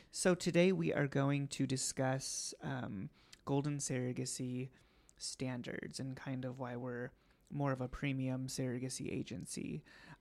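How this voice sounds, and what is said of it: Raspy, scratchy voice. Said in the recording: “my voice sounds a little raspy ... I was like screaming to that in the bathroom. So I'm a little scratchy”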